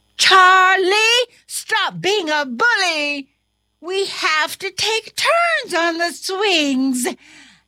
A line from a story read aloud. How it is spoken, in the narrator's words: The other students shouted